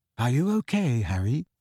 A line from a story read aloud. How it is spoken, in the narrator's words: asked Ginny quietly